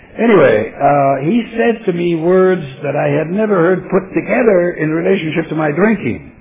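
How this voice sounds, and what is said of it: Non-native English accent. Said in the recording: “that's not my, it doesn't happen to be my primary language, as you can tell by the accent.”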